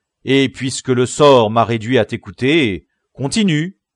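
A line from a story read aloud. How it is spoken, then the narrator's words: Exclaimed. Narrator (French): s'écria Don Quichotte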